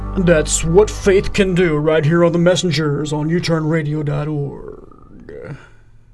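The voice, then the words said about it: Exaggerated radio announcer voice. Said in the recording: “That was my worst radio announcer voice.”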